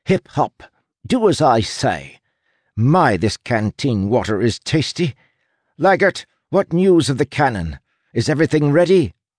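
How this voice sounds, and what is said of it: Imitated aristocratic female accent. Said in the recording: “in a surprisingly good approximation of her aristocratic accent.”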